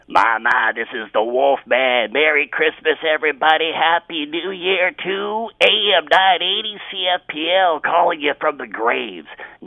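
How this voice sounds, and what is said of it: Imitates another person's voice. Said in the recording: “I can do a Wolfman Jack imitation.”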